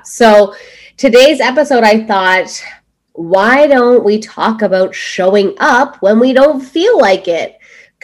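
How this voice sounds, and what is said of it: Congested voice from a cold. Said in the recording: “as you can hear in my voice, I have been battling a cold.”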